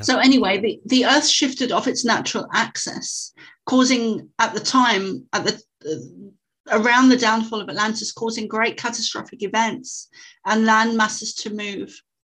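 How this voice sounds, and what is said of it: Non-American accent, axis sounds like access. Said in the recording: “excuse my accent, because a lot of Americans think I'm saying access when I'm saying axis... My accent, it does sound, the two words sound almost like the same thing.”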